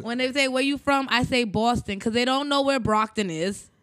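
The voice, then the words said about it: Boston accent. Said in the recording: “She sounds like she's from ... Boston ... Oh, I heard the accent.”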